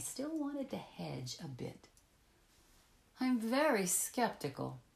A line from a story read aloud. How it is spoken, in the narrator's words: I pleaded